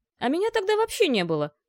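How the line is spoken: Indignant interjection. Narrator (Russian): возмущенно вставил второй

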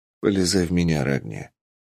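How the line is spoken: Quiet. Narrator (Russian): тихо сказал я

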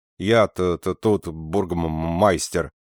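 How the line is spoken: Grumbling stammer. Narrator (Russian): проворчал, заикаясь, некто

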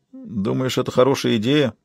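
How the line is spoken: Uncertain question. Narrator (Russian): неуверенно спросил Кертис

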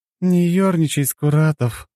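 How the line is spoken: Tired. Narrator (Russian): устало произнесла Лена

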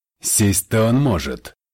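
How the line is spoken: Mocking. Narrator (Russian): насмешливо откликнулся Джеймс

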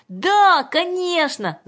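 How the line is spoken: Crowd shouting. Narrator (Russian): закричали все, кроме Юльки

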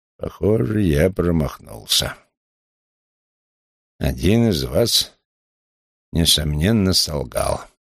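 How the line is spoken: Grumbling after heavy sigh. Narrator (Russian): Вулф шумно выдохнул и проворчал

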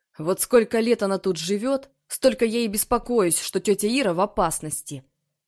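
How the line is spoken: Grumbling. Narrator (Russian): проворчал Тарас

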